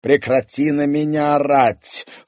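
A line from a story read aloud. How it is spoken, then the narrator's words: Cold, clipped. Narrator (Russian): холодно процедил Корф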